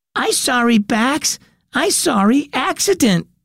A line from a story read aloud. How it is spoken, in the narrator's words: Matt cried